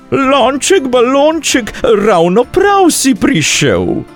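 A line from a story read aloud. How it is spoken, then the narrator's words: Calling out. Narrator (Slovenian): zaklicala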